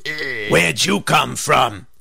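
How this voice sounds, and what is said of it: Low-pitched frog character voice. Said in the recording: “Said the frog in a low voice.”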